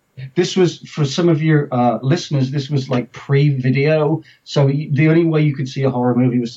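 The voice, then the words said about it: English accent. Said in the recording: “as you can tell from my accent, I'm English. I'm the English person.”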